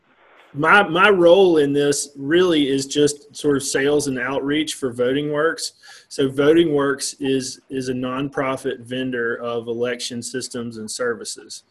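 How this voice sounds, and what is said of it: Regional American accent. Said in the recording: “y'all can probably tell from my accent that I am not from New Jersey”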